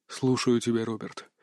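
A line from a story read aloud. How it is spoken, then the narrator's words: Weary voice. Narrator (Russian): ответил командир уставшим голосом, словно только что вышел из боя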